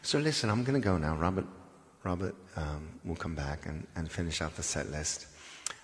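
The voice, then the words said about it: Speaks with an accent. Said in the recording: “the accent. I don't know how to say hi to you without the accent.”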